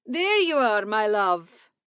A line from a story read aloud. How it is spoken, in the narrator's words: he called out